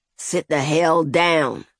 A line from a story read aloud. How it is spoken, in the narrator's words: he growled